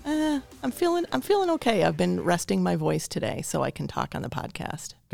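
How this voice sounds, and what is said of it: Hoarse voice. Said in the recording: “I'm a little hoarse today”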